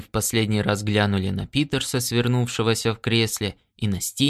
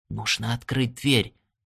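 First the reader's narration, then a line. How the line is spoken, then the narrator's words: Whisper. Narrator (Russian): прошептал он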